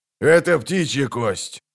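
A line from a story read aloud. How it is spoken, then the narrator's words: Cold. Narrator (Russian): холодно сказал Золтан Хивай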